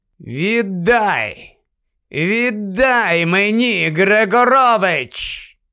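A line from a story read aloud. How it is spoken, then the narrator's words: Clear, cold voice. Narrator (Ukrainian): Гаррі говорив чистим і холодним голосом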